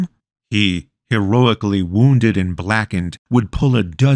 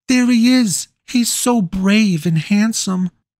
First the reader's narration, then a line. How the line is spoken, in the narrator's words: the pretty girls would squeal